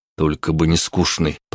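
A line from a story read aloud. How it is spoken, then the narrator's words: Mutter. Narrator (Russian): пробормотал я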